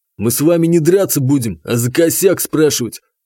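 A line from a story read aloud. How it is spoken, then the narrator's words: Angry chuckle. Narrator (Russian): зло хохотнул Игнат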